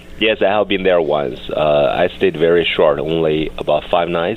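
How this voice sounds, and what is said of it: Slightly congested voice from a cold. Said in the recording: “I got a cold a little bit.”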